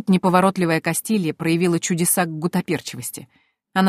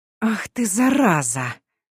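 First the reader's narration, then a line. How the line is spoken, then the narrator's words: Whisper. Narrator (Russian): прошептала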